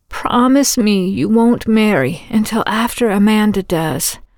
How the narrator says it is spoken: Hannah had rasped into Lucy's ear

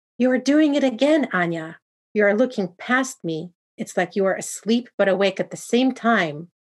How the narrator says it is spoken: exclaimed loudly

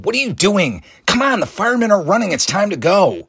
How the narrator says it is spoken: Danny yelling

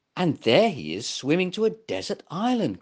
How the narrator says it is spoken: cried Gumpa

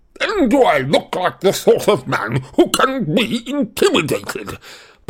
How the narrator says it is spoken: barked Uncle Vernon

